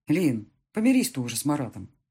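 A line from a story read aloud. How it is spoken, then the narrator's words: Plain. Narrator (Russian): сказал он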